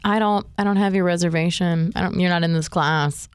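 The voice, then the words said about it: Imitates another person's voice. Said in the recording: “Your impression of her is priceless.”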